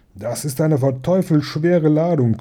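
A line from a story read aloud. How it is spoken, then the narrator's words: Several voices growling. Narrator (German): knurrten einige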